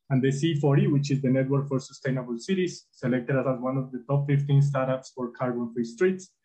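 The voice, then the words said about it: Spanish accent. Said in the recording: “Spanish accent”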